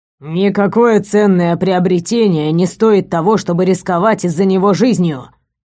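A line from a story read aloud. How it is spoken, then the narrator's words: Growl. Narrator (Russian): рыкнул док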